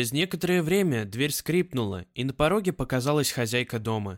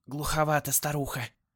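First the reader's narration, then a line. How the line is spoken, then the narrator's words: Undertone. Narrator (Russian): добавила вполголоса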